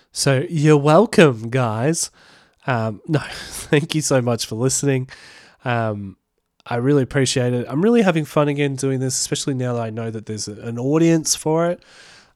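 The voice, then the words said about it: Sick, congested voice from cold. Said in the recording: “I've got a really bad cold flu at the moment. You might be able to hear it in my voice”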